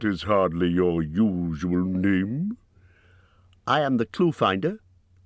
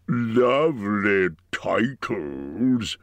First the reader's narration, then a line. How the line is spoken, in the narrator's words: sneered the dragon